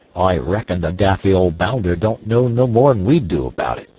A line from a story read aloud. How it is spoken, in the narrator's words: growled the rat-faced sailor